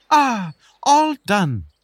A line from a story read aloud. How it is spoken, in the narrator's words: the beetle exclaimed